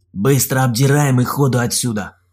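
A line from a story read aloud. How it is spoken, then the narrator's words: Gruff bark. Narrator (Russian): Рыкнул Олег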